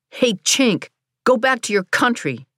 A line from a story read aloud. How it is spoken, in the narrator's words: a greasy white teen passed by our house yelling